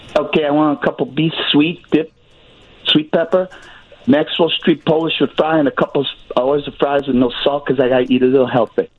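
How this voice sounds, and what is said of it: Strong Chicago accent. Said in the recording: “you got a Chicago accent? ... You sure do. Wherever I go.”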